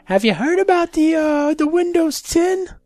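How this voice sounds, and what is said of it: Comic Jewish mother voice. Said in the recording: “she sounds like an Adam Sandler Jewish mother”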